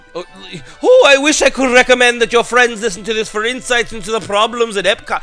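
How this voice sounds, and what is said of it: Attempted Irish, Scottish-sounding accent. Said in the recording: “I don't care if I can't do a fucking Irish accent. I'm doing it anyway. ... It was more like a Scottish, I guess.”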